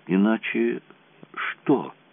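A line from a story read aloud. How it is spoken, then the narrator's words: Whisper. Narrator (Russian): прошептала она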